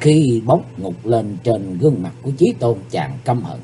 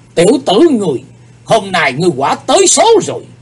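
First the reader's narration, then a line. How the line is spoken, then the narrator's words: Angry. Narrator (Vietnamese): Âm ma giáo chủ giận dữ nói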